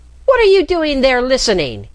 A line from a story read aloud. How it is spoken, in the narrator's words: shouted